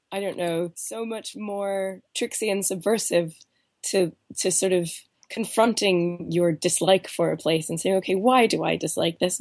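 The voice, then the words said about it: Congested voice from a cold. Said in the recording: “I still have this, this cold. My voice sounds. ... you're very bravely doing this through a cold ... I'm finding all these new nooks and crannies in my voice”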